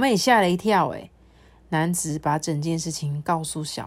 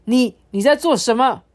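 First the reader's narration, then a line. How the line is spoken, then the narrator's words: Startled shout. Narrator (Chinese): 这男子惊吓过来，喊着说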